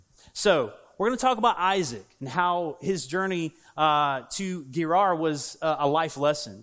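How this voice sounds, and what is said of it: Southern US accent. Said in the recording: “I got a southern accent, so my southern accent”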